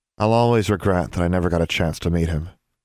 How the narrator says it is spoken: sighed Valeria

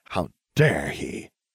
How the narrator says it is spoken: I spat

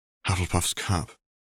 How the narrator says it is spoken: Albus murmured

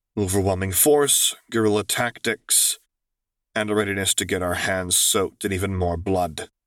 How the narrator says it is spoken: Luke answered grimly

